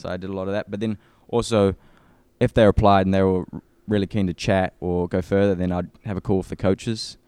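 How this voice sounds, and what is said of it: New Zealand accent, similar to Australian. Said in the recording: “New Zealanders and Australians hate it when people say they're the same, or like, I get you're Australian a lot, right? ... my accent, it's kind of similar.”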